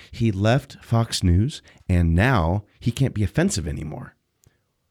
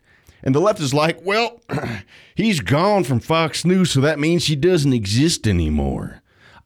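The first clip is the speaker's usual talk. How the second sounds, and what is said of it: Put-on country accent. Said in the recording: “I do the country accent for that”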